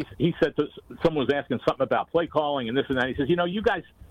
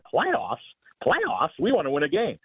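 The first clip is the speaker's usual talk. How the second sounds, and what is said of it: Impression of coach Jim Mora. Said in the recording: “that's a pretty good impression”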